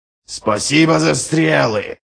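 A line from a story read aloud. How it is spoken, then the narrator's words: Roaring. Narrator (Russian): проревел Ральф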